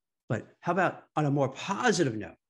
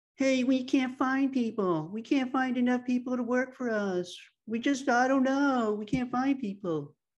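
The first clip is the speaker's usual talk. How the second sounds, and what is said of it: Imitates a company CEO's voice. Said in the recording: “Do you like my imitation of like a CEO of a company saying that? I got to work on my imitations.”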